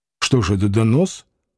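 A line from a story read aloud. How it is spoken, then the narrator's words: Quiet angry question. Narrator (Russian): тихо и сердито спросил Клим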